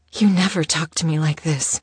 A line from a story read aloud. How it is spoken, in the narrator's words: she gasped